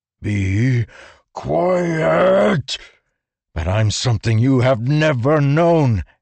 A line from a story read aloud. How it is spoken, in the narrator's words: Kaladin shouted